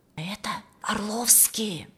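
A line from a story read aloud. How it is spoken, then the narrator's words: Crowd whispering. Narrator (Russian): шепталась стоящая вокруг публика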